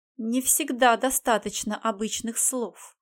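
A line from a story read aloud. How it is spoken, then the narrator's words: Plain. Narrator (Russian): сказала тогда Арана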